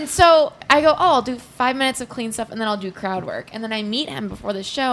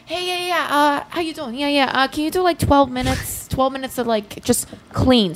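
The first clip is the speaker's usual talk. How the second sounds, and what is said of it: Voice like Italian Brooklyn woman. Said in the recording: “sound like an Italian woman from Brooklyn? ... I'm so bad at accents.”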